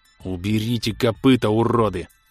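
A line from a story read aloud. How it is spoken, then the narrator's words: Growl. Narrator (Russian): зарычал холмик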